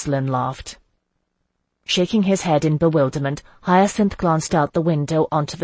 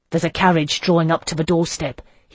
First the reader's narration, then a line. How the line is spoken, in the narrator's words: he said, his voice tight